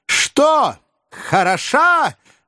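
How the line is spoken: Loud hoarse shout. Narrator (Russian): громко крикнула охрипшим голосом Маргарита Николаевна

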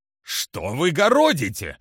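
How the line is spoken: Barked. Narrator (Russian): рявкнул Эл-Парк

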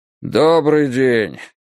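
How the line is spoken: Tired voice. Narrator (Russian): сказал он усталым голосом

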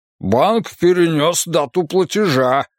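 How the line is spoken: Indignant. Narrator (Russian): возмущенно ответил он

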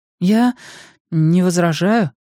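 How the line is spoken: Uncertain. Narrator (Russian): неуверенно сказала Ким

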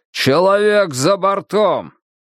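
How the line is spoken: Shouted. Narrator (Russian): прокричал

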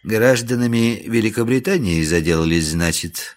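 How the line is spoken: Gentle question, man. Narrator (Russian): ласково спросил господин в штатском

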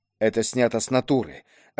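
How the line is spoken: Whisper. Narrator (Russian): отчего-то шепотом произнес Дугин

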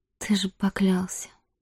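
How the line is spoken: Whispered. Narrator (Russian): прошептала она

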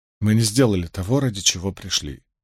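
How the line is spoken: Forced gentle tone. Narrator (Russian): сказала Эгвейн, стараясь, чтобы голос ее звучал мягко, хотя настроена она была не так благодушна

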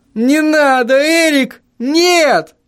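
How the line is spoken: Scream. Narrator (Russian): завопил я

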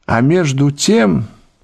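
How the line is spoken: Low, melodious voice. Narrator (Russian): своим низким, певучим голосом продолжал лорд Генри

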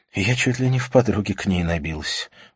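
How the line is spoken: Sighing. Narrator (Russian): вздохнула Катрина

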